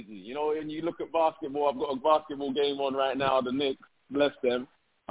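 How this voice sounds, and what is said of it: English accent. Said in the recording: “I'm bringing, you know, an English accent”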